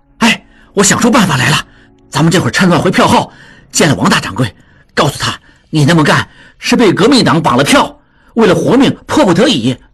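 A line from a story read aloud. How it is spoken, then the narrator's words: Low voice while running. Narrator (Chinese): 一边跟着跑，一边低声说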